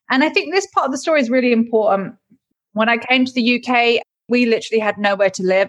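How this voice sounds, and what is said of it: British accent. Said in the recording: “I have a British accent, because I moved over to the UK when I was 11”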